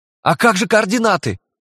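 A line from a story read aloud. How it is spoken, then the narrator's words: Yelling. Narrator (Russian): завопил Грейди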